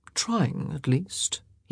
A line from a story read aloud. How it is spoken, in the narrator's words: he murmured